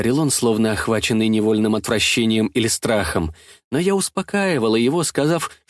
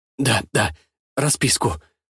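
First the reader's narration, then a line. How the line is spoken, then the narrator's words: Muttered. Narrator (Russian): пробормотал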